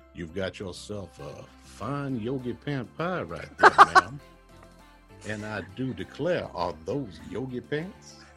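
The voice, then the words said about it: Put-on Southern American accent. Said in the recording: “Everything sounds better with bourbon and a Southern accent.”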